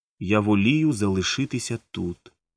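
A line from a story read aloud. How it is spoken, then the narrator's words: Calm reply. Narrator (Ukrainian): спокійно відповіла та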